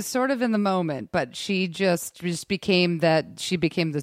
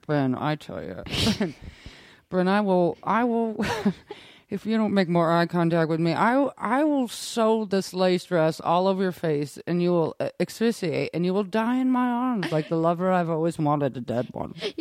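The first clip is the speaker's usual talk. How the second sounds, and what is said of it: Imitates another person's voice. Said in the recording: “your best impression of Lace”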